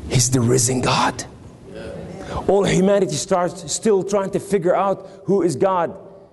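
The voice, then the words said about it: New York accent. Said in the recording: “Excuse my New York accent.”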